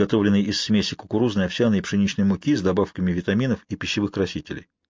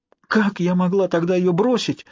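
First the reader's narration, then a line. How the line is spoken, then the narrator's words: Exclaimed, then crying. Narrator (Russian): воскликнула Дарби и расплакалась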